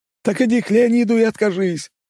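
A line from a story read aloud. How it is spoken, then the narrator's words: Shouting in strange voice. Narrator (Russian): прокричал не своим голосом тот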